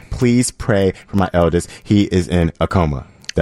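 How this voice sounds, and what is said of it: Sarcastic reading tone. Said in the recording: “I didn't even mean to read the last part sarcastically.”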